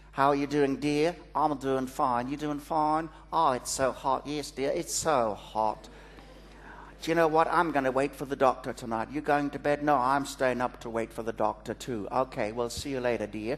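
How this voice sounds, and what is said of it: Imitated Australian accent. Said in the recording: “my impersonation of an Australian accent.”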